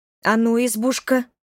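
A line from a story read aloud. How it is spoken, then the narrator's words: Hesitant start. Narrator (Russian): неуверенно начала я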